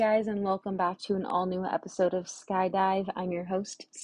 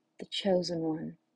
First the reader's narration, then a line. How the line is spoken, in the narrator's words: are whispered in the thunderous storm